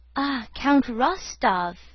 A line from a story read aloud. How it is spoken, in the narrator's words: exclaimed Pierre joyfully